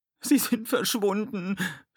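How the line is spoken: Sobbing. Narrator (German): schluchzte sie

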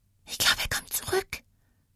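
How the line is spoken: Girl whispering through sobs. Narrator (German): flüsterte die Mädchenstimme zwischen kurzen, heftigen Schluchzern

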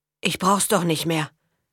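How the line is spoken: Boy, choked voice. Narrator (German): meinte der Junge mit erstickter Stimme

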